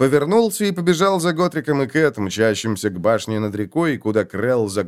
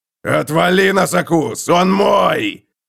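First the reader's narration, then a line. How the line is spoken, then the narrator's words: Roaring. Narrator (Russian): Взревел Готрик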